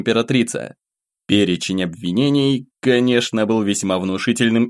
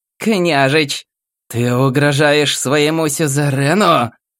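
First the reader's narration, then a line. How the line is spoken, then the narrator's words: Growl. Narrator (Russian): прорычала императрица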